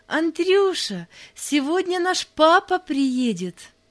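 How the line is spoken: Joyful. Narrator (Russian): радостно сказала

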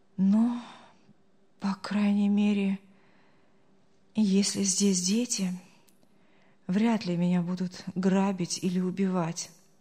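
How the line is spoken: Relieved sigh. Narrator (Russian): облегченно вздохнул Артур

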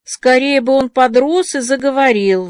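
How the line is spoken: Sighing. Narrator (Russian): вздохнула Диана

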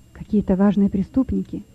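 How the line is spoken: Whispering prisoners. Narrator (Russian): шептались между собой заключенные

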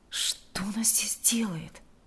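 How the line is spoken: Indignant whisper. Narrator (Russian): Возмущенно прошептал он

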